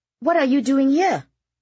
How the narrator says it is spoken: Kitty asked excitedly

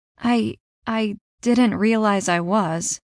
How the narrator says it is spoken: I mumbled

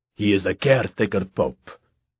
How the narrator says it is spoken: Pucci snapped

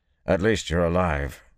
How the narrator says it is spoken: he said gruffly

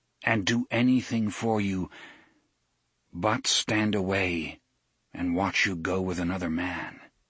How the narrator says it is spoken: said calmly

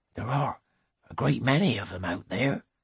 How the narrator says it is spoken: he says faintly

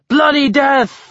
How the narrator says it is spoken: the crowd roared

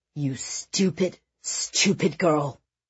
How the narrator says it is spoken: her father had snarled angrily

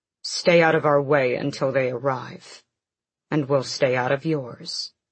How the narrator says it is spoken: Rowan said coldly

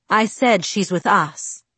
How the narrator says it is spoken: Carlyle corrected in a hard voice

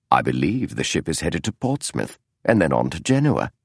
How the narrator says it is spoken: said softly

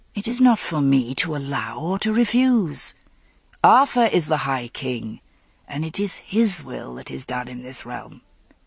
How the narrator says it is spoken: he said gently

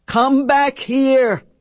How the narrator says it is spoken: bellowed

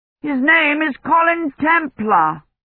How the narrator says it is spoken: Dunworthy shouted

